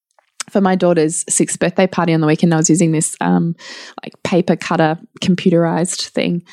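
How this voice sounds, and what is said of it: Voice failing, sounding funny. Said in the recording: “my voice is going, it's going a bit funny”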